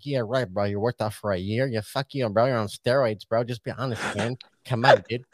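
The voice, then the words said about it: Imitates another person's accented voice. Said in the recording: “he sounds like that ... that was really accurate. Your accent a second ago was like super sweet”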